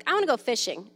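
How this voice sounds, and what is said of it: Whiny, entitled child's voice. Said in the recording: “in her most entitled voice ever”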